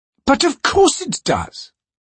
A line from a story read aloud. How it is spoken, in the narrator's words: she replied testily